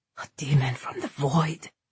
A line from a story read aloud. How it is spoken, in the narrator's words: they whispered